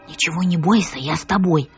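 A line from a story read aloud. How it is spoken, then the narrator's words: Familiar voice whispering. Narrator (Russian): прошептал знакомый голос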